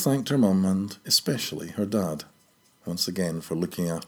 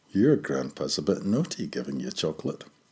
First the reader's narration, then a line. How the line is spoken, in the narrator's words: laughed and said to Dale